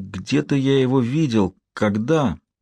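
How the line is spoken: Calm. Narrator (Russian): Лэнгдон спокойно повторил вопрос

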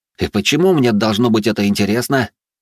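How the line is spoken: Irritated hiss. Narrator (Russian): раздраженно прошипел

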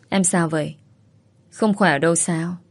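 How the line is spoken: Soft, concerned. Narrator (Vietnamese): Tường khẽ nói

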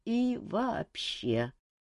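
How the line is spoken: Mumble. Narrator (Russian): промямлил Жак

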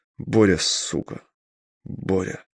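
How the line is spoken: Muttering. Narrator (Russian): бормотал Вадим

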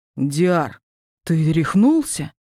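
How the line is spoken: Exclamation. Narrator (Russian): воскликнул Этери

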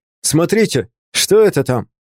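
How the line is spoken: Shout. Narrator (Russian): Сашка крикнул

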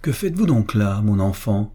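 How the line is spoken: Insulting tone. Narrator (French): lui dit-elle d'un ton insultant

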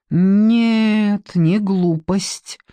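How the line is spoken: Slow, thoughtful. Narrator (Russian): медленно переваривая информацию, ответила Маша

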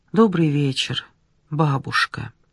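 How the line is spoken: Relieved, very polite. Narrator (Russian): Облегченно вздохнув, Ольга сказала со всей вежливостью

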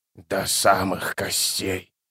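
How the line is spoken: Whisper. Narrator (Russian): прошептал заклинатель

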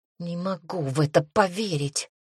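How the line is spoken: Breathless exhale. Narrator (Russian): выдохнула Анна

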